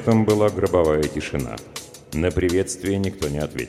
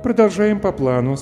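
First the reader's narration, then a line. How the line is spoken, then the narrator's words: Calm. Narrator (Russian): спокойно произнесла Дженни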